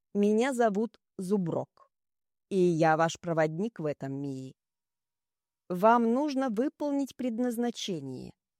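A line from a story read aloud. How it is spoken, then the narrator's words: Menacing yet caring. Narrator (Russian): добавил орк грозно и в то же время как-то заботливо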